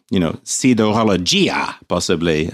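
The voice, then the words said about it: Put-on Italian accent. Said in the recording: “That's my Italian accent”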